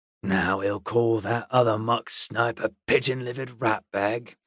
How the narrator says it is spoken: the boatman muttered

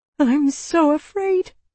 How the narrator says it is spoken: I whimpered

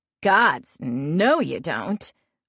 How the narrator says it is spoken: Lark says with a chuckle

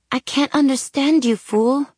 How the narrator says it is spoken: he said sweetly in Spanish

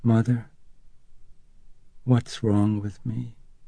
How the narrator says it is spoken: Reagan called out to her very softly

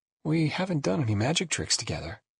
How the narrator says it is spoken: she said in a low voice

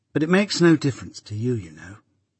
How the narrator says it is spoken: said Biddy calmly

